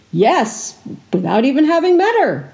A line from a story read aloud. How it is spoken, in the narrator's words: Merkor exclaimed